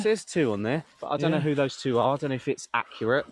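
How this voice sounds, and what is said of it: British accent. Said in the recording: “we're British... You love our accent.”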